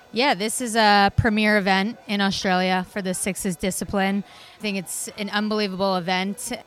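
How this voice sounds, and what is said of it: Non-Australian accent. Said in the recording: “You'll pick up the accent here, suggest that she's not Dinky Dye born and bred Australian”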